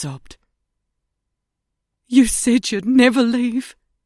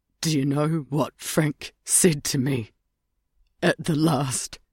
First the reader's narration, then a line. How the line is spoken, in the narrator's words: croaked from the doorway